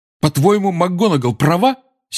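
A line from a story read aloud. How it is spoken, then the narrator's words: Angry. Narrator (Russian): сердито обратился Гарри к портрету Корнелиуса Фаджа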